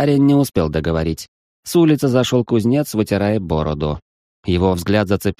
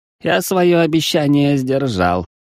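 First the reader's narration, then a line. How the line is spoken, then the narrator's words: Snorting. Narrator (Russian): хмыкнул восточный бог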